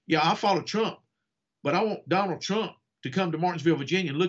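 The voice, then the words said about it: Southern American accent. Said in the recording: “I have this Southern accent ... people like, you talk funny. I may talk funny”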